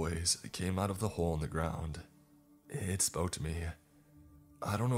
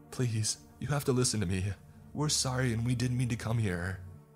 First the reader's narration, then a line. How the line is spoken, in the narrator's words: kept pleading